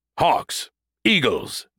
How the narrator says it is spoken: Brody shouted

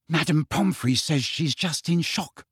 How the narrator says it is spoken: whispered Hermione

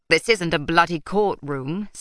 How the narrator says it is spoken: snapped Magician Praff

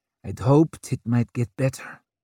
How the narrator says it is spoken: she muttered

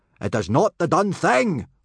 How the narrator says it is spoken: roared Gobber

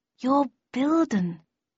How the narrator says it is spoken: I murmured

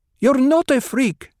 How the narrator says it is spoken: Hera snapped

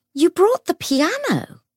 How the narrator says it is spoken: exclaimed

